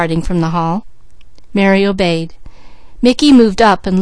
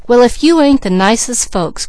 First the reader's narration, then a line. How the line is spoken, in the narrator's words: cried Mickey